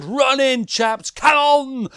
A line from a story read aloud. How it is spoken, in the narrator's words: yelled